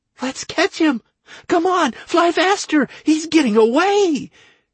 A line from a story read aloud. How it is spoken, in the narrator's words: cried Rastilana, forgetting entirely her stutter